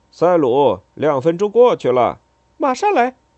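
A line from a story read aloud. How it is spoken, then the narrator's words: Calling out. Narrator (Chinese): 那男人喊道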